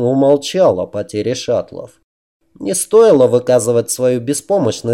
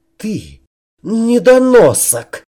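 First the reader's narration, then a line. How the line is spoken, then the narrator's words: Hiss. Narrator (Russian): прошипел Аткинс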